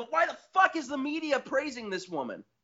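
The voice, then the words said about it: Yelling angrily. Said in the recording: “sorry for yelling”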